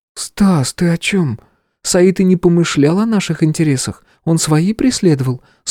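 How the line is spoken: Calm explanation. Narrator (Russian): спокойно пояснила Стеша

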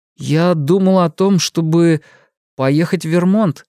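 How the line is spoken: Hesitant reply. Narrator (Russian): неуверенно ответил он

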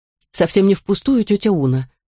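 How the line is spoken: Calm. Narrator (Russian): спокойно ответила Вивьен

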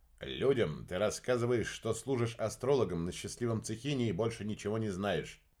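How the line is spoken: Plain. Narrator (Russian): ответил Уран

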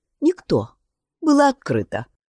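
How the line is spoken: Calm answer. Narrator (Russian): спокойно ответила Тора

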